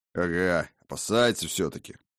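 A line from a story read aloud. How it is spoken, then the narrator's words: Muttered. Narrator (Russian): пробурчал Арбас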